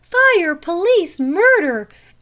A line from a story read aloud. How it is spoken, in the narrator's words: out of the window at the top of her voice